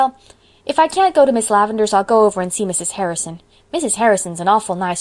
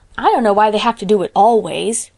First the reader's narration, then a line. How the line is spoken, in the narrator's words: grumbled Davy